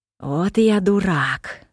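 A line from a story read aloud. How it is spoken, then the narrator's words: Exclaim. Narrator (Russian): воскликнул он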